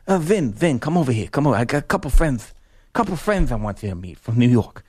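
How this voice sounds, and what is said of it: Impression of Jay Horowitz with lisp. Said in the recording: “Jay's got a major lisp, so when I do his impersonation, I'm just sounding like him.”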